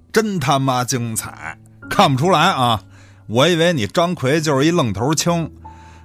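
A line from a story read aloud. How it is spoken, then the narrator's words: Calm, laughing, clapping. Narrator (Chinese): 吕老板平静下来，拍着手笑了起来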